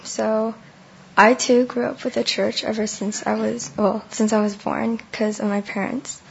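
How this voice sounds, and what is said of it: Hoarse, partly lost voice. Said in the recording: “I kind of lost my voice ... why I sound really weird, that yeah, because my voice is kind of gone.”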